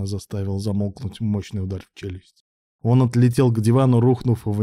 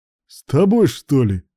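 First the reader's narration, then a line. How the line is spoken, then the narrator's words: Chuckle. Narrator (Russian): Руслан хохотнул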